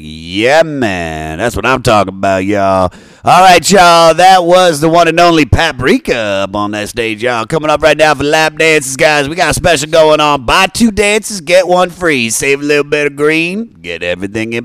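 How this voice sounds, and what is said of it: Strip club DJ announcer voice. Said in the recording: “strip club DJ impersonation”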